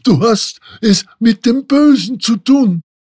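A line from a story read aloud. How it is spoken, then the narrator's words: Bird-catcher shouting. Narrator (German): schrie der Vogelsteller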